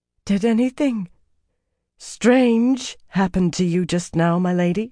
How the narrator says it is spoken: she asked, fear strong in her unsteady voice

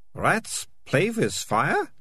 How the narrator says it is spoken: Melissa hissed

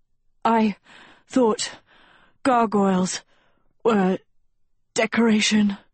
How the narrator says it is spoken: she wheezed

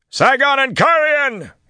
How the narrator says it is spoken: he shouted

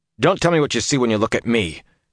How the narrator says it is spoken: said harshly

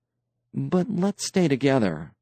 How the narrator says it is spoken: Tance said nervously

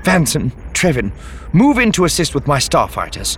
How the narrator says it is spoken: she snapped

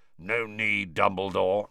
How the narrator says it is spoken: said a wheezy growl

